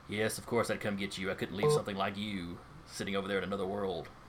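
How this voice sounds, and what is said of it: Quieter character voice. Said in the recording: “in a quieter voice.”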